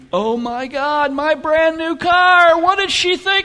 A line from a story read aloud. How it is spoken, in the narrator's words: he was screaming